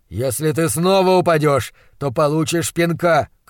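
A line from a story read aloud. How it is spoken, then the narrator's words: Shouting. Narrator (Russian): крикнул он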